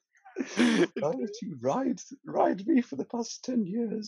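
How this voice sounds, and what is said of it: Neighing horse character voice. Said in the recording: “Do the horse voice. ... I was just thinking of like a neigh, a horse neigh, but trying to make it a voice.”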